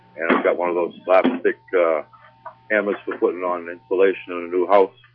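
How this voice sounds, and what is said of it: Eastern US accent. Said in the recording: “Kind of catching that Eastern accent there.”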